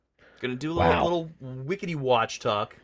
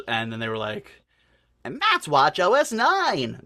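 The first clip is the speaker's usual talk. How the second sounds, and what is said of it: Imitates another person's voice. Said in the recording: “my Kevin Lynch impression”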